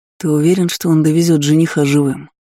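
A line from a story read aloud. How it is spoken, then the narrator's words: Gloomy grumble. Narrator (Russian): Мрачно пробурчал четвертый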